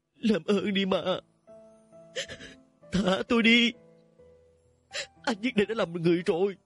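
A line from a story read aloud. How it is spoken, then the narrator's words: Tearful sobbing plea. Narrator (Vietnamese): Nước mắt không ngừng tách tách rơi tuôn xuống, giọng nói nức nở van xin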